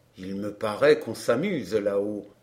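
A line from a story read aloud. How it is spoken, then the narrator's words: Said very quietly. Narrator (French): dit-il tout bas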